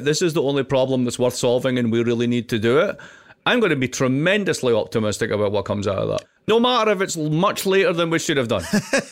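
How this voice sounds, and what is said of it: Distinctive accent. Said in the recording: “his accent and comic timing”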